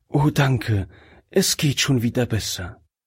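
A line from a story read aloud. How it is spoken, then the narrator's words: Breathless woman's whisper. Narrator (German): flüsterte die Frau, die langsam wieder zu Atem kam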